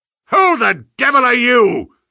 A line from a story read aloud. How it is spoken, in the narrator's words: he thundered